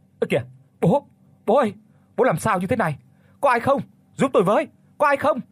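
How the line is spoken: Shouting. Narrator (Vietnamese): Nhất hét lên

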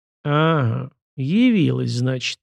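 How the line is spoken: Gloomy drawl. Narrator (Russian): мрачно протянул бывший галерник

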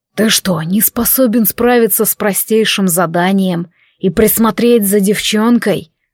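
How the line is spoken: Growled. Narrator (Russian): рыкнул Вельзевул

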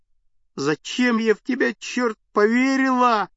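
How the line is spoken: Sobbing young woman. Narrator (Russian): рыдала девушка под окном

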